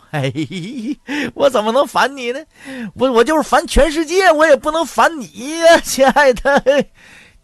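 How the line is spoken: Cheerful grinning. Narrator (Chinese): 大旺笑嘻嘻就说

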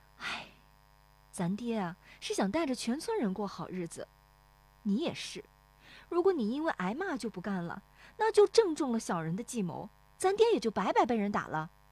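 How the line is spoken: Sighing. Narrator (Chinese): 乔红梅叹口气说

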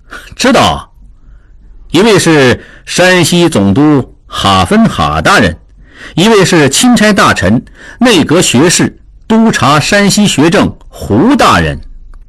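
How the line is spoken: Cold sneer. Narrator (Chinese): 智庸冷冷一笑

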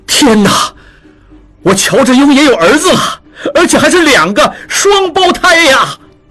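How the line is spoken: Delighted cry. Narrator (Chinese): 智庸 惊喜地叫道

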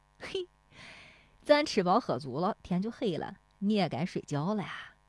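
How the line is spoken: Grinning. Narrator (Chinese): 大棒槌呲牙一笑

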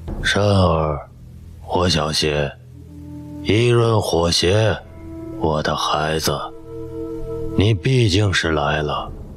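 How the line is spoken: Eerily cold, drifting voice. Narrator (Chinese): 有声音异常清冷地飘来

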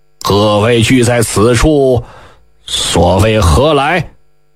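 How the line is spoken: Slight smile. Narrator (Chinese): 谢逊微微一笑…说道

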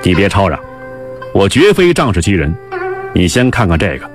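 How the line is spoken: Cold sneer. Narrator (Chinese): 狄仁杰冷笑道

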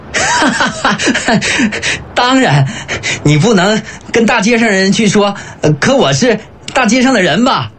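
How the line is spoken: Sudden hearty laughter. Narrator (Chinese): 李正突然爽朗地大笑起来

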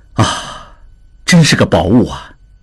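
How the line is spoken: Admiring exclamation. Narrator (Chinese): 志庸忍不住赞叹道

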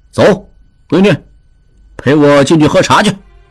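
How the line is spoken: Cold laugh. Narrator (Chinese): 陆大可 冷冷一笑，对玉汉道

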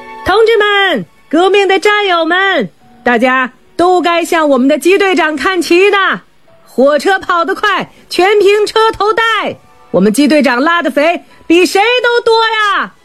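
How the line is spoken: Shouting. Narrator (Chinese): 余文教喊

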